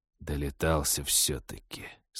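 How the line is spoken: Through clenched teeth. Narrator (Russian): сквозь зубы процедил мужчина

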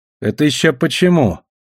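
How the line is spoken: Gloomy question. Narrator (Russian): мрачно поинтересовался Талли

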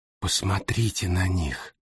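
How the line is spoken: Whisper. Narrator (Russian): прошептала Синтия

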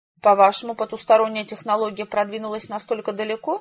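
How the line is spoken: Plain. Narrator (Russian): спросил глашатай

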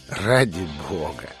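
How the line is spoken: Mocking request. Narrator (Russian): издевательским тоном попросил Фрай

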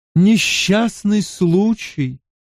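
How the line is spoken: Muffled voice. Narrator (Russian): голос Морейн звучал глухо в тумане

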